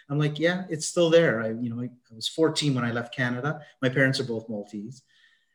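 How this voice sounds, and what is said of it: Canadian accent. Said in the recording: “people might tell by the accent. So the accent remained there ... you still have the accent?”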